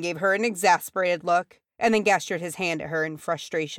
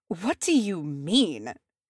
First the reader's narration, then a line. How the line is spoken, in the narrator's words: snapped a new voice